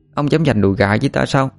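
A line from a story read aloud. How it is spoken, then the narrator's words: Drowsy mumbling. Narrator (Vietnamese): Như Quỳnh mở hờ đôi mắt, tia nhìn mơ màng, miệng lẩm bẩm nói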